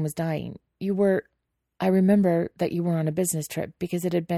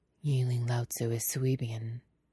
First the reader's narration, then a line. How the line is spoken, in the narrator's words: Lan Chan murmurs